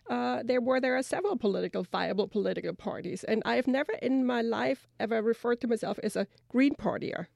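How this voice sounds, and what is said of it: German accent. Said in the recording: “I've grown up in Germany, as my accent probably gives away.”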